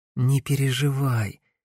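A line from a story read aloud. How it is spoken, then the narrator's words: Soft young woman's voice. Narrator (Russian): мягко произнесла девушка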